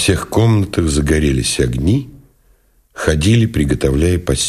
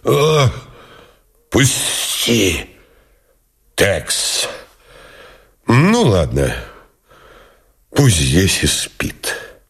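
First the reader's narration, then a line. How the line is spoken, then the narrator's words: Hoarse rasp. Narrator (Russian): прохрипел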